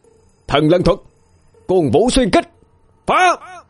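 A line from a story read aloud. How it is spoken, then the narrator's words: Roaring. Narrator (Vietnamese): Hào gầm lên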